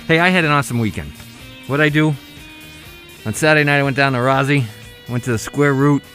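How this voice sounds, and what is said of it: Slightly out of breath. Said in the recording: “I'm a little out of breath because I'm trying to get things done here.”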